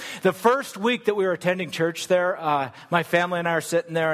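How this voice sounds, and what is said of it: Usual voice. Nothing is said of it.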